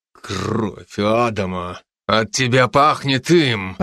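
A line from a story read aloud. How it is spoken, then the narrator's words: Displeased growl. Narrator (Russian): Прорычал недовольно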